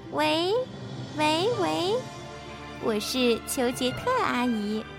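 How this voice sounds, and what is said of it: Pinched-nose fake female voice. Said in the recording (Chinese): “他会捏着鼻子，假装女生的声音说”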